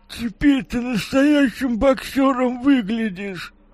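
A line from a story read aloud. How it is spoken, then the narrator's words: Glum joking. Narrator (Russian): Уныло пошутил его приятель Витя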